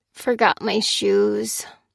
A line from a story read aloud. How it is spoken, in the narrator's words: muttered Fliss